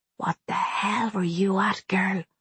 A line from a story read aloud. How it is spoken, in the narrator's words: I said softly into the empty room